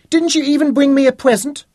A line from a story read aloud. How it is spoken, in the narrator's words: she piped